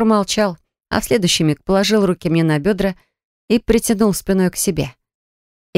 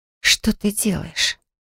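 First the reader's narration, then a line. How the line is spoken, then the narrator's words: Barely managed whisper. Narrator (Russian): Еле успела прошептать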